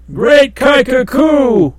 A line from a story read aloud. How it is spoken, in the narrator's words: uttered exclamations of surprise, and the twin Ki shouted